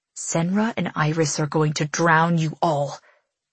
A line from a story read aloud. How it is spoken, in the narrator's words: he hisses